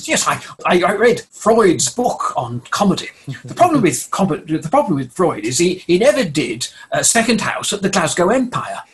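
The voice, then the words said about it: Impression of Ken Dodd. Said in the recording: “I don't do a very good Ken Dodd impression”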